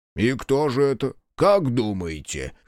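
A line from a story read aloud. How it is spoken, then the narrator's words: Short laugh. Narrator (Russian): хохотнул Соба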